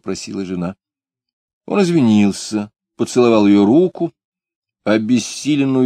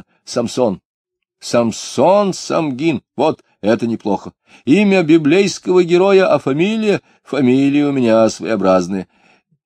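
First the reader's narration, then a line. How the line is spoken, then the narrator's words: Satisfied exclamation. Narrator (Russian): воскликнул удовлетворенно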